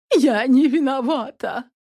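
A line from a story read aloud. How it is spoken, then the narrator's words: Sobbed. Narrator (Russian): прорыдала Мухина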